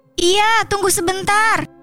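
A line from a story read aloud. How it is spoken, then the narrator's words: Reflexive sudden shout. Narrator (Indonesian): Saya yang mendengarnya langsung refleks dan berteriak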